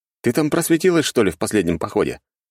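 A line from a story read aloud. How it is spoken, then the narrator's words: Snorting, amused. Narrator (Russian): хмыкнул я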